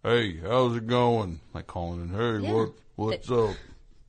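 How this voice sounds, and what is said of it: Impression of a trucker caller. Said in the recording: “That's a good impression.”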